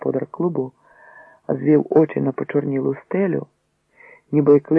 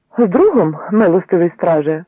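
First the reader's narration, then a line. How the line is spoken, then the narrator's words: Loud retort. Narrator (Ukrainian): відпарирував Яжимський так само голосно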